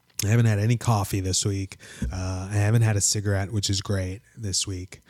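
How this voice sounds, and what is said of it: Slightly rough, crunchy voice. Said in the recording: “my voice is a little crunchy”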